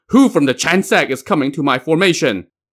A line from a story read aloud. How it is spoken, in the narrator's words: He carried two swords and shouted